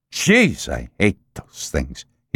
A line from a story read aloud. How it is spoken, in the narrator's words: spat out with aversion